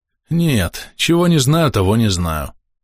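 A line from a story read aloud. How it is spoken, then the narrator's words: Sigh. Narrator (Russian): вздохнул тот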